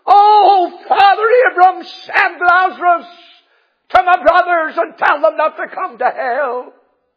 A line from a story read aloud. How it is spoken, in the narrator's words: When God's ear and God's heart is closed to your pleading, the man down in the lost eternity cried